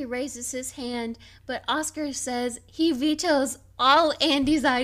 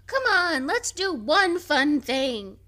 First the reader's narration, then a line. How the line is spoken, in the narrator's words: Pam, who is tired and disappointed from a ruined camping day, says